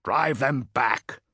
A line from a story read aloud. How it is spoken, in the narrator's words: snarled Antigues through gritted teeth